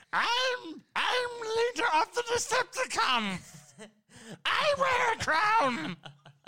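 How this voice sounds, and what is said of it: Imitated cartoon robot character voice. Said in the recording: “Starscream ... Doing that voice. ... That's very good.”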